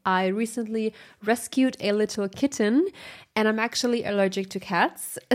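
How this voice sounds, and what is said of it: Congested, sick-sounding voice. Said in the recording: “apologize for my voice. I might sound a little bit sick”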